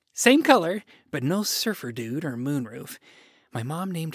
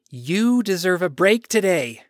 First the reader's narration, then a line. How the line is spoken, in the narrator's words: I said with a chuckle